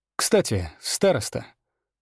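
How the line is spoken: Thoughtful. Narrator (Russian): сказал он задумчиво

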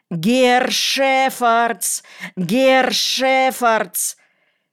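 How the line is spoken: Frightened, ugly hoarse yell. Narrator (Russian): с перепугу я заорал каким-то противным хриплым голосом

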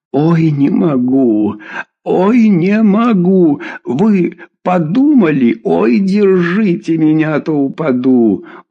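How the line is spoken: Sobbing with laughter. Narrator (Russian): Он чуть не рыдал от хохота

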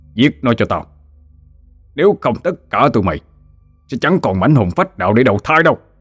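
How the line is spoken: Shouting. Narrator (Vietnamese): hắn hét lên

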